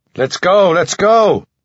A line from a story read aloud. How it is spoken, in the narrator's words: Coach, like a gnarled tree trunk bending over the water, clapping his hands and shouting